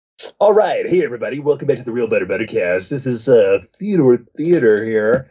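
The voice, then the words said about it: Exaggerated radio announcer voice. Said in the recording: “stupid voice ... That was my radio voice.”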